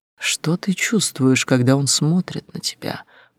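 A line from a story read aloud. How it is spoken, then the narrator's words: Tense whisper. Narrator (Russian): прошептал он, его голос был полон напряжения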